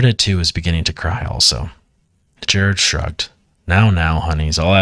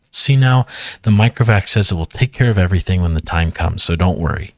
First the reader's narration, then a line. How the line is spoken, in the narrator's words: said cheerfully